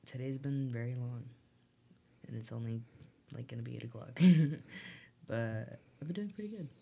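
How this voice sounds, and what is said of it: Weird, deeper voice after cough. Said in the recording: “sorry if my voice sounds weird. I had like a cough and it just sounds bigger.”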